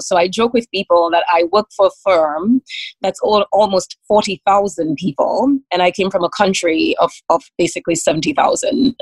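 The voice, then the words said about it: Caribbean Dominican accent. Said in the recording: “I came from a very tiny island in the Caribbean. You can probably hear it from the accent, called Dominica”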